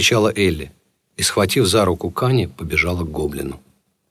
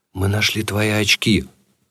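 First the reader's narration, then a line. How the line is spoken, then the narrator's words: Trembling voice. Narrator (Russian): дрожащим голосом произнес Кани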